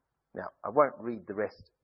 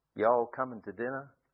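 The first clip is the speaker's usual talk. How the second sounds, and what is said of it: Fake American Southern accent. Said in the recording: “a New Zealander with a fake southern accent”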